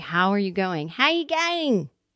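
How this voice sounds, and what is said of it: Poor attempt at Australian accent. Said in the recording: “as the Australians say? ... That wasn't a good Australian accent.”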